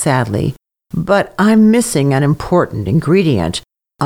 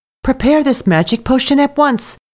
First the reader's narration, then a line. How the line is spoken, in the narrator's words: the young wife cried out excitedly